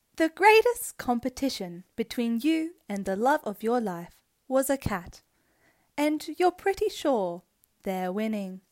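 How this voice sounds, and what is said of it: Robotic Siri-style voice. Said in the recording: “Am I doing like a deep male voice it. Or am I going to go like my Siri voice? ... Can you do your Siri voice”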